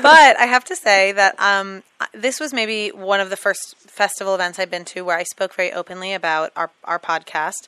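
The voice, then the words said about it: Hoarse, raspy voice. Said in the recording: “I sound like a drag queen ... where I was talking lots and partying”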